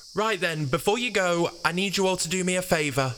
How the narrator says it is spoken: shouted Noah

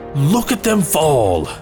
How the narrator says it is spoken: He shouts over the comms

